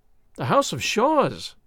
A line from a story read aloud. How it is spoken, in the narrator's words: I cried